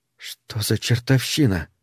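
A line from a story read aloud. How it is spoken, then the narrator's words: Gruff mutter. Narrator (Russian): Струма буркнул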